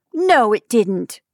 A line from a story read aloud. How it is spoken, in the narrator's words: Anne scolded sharply